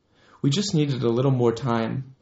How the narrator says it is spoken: I replied

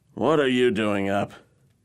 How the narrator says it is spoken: His words were slurred

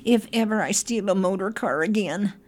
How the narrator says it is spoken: gasped Toad

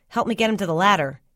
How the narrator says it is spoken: he said

